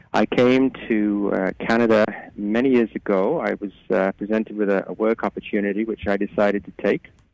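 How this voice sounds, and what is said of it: Slight British accent. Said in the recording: “You have a little bit of a British accent there”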